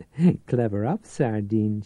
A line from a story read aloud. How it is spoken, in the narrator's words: she giggled